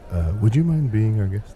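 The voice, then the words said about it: Speaks in a lowered, quieter voice. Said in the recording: “lower my voice.”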